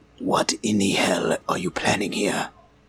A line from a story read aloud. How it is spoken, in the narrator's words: Daedalus whispers through his teeth